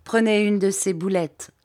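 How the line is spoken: Plain. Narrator (French): lui dit-il

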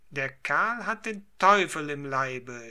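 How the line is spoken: Frenchman screaming. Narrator (German): schrie der Franzose

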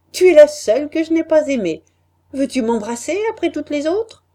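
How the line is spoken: Laughing. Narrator (French): m'a dit en riant

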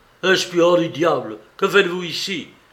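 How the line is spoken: Exclaiming. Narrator (French): s'écria

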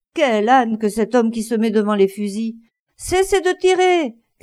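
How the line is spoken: Shouting at full force. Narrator (French): cria-t-il de toute la force de ses poumons

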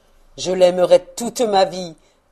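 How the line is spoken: Exclaiming. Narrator (French): s'écria-t-il

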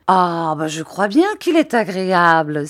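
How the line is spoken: Exclaiming. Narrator (French): s'écria Peggotty

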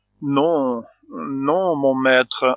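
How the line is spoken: Stammering. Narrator (French): répondit-il en balbutiant

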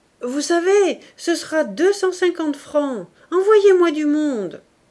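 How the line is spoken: Reluctant shout after hesitation. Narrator (French): il leur cria, après tout un combat intérieur

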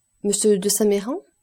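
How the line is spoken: Plain question. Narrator (French): demanda Monte Cristo

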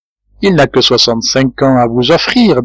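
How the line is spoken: Plain. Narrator (French): dit-elle

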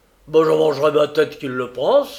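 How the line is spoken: Grumbled. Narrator (French): grommela encore M

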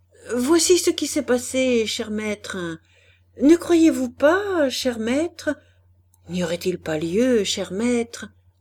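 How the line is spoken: Anguished, frantic questioning. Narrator (French): affolé d'angoisse par les gémissements de sa femme, harcelait de questions

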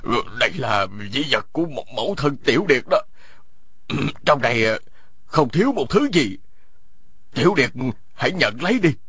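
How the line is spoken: Old man's trembling voice. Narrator (Vietnamese): Lão run run nói

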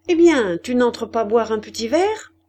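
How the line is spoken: Cheerful question. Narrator (French): lui demanda la mouquette gaiement

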